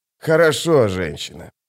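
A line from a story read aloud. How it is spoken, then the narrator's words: Grumble. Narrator (Russian): проворчал ее спутник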